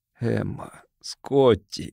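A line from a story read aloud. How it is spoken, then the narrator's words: Weak, sinking, hopeless voice. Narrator (Russian): Слабым, упавшим голосом сказал, как бы не ожидая ответа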